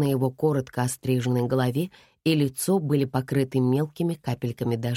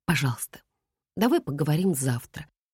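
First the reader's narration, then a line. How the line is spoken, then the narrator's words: Quiet plea. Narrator (Russian): тихо попросила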